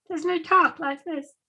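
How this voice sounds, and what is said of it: Imitates another person's voice. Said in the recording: “did you like my impression? ... You sound more like someone of Sesame Street or something like that”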